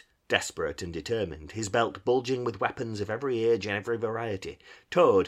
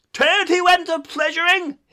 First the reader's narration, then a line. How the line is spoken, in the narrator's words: he yelled